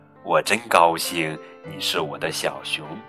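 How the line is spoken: Mother, soft smiling whisper. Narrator (Chinese): 熊妈妈笑了，低声细语的回应儿子

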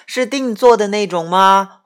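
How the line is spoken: Surprised, loud. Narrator (Chinese): 营业员往往会很惊讶的大声说

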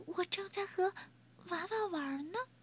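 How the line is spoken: Soft quiet voice. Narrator (Chinese): 威勒轻声说

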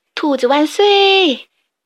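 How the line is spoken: Crowd cheering loudly. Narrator (Chinese): 所有的动物都高喊起来

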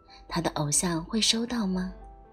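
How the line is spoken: Plain. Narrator (Chinese): 他对我说

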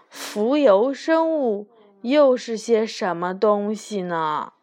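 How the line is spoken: Muttering to himself. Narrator (Chinese): 兔子先生自言自语地嘟囔着

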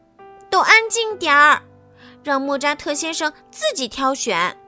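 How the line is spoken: Anxious shouting. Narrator (Chinese): 他们急了，冲着大家大喊

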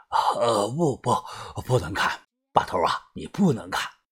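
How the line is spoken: Frightened, panting. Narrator (Chinese): 季师傅脸色煞白，大口大口的喘着气说

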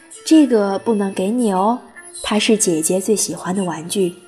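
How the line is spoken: Gentle smiling mother. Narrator (Chinese): 我妈妈笑着很温柔地跟她说

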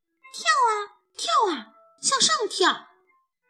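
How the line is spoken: Loud shout. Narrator (Chinese): 冲着孤傲大声地喊

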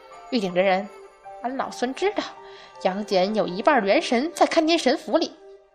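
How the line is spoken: Quiet, nervous, laughing. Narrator (Chinese): 孙悟空一边高笑着，一边满头冷汗的 小声说了一句

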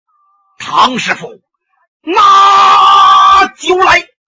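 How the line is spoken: Loud booming shout. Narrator (Chinese): 他这嗓门也大呀，一声喊喝

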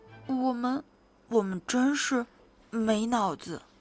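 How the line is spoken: Quiet, apologetic pair. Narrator (Chinese): 他俩小声说

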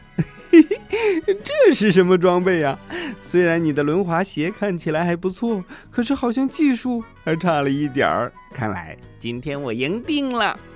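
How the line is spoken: Loud laughter. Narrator (Chinese): 凯文忍不住哈哈大笑道

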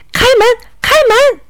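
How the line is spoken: Shouting loudly. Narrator (Chinese): 他……高喊着

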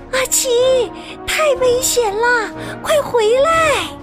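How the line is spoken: Loud urgent shout. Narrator (Chinese): 贝尔和茶包太太大声地对阿奇喊

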